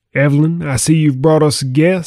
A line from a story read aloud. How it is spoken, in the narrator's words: said the man with a voice like rolling thunder tinged with a strong East Texas drawl